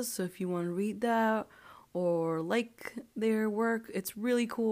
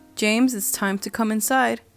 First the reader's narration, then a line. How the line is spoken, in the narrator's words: called out